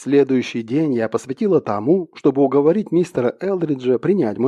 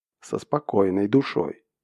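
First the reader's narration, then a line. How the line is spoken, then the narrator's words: Strange voice. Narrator (Russian): странным голосом повторил он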